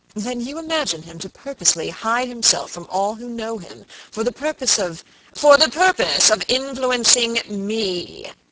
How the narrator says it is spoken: exclaimed Mr

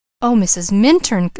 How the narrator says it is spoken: exclaimed Leslie

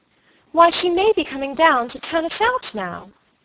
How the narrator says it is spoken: Dolly, who had recovered, cried

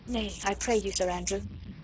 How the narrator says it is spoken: said gently

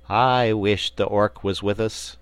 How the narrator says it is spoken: sighed Trot

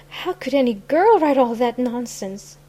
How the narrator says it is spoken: gasped

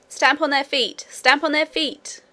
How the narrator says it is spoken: shouted

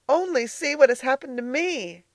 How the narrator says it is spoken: cried Elnora

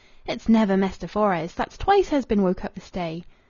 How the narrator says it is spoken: She was munching a square of bread and cold bacon, exclaiming

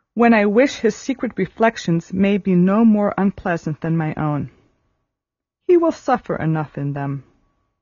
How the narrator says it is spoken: said Marianne at last with a sigh

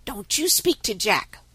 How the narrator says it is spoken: whispered Tommy

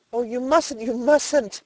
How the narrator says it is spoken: exclaimed Edna

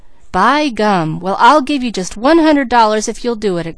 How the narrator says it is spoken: exclaimed Peter

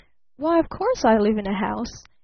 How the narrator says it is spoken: laughed Barton

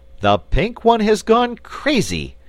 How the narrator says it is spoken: exclaimed Button-Bright

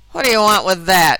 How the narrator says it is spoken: growled the carter

